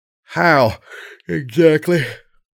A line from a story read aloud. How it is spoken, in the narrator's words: punctuated with a yawn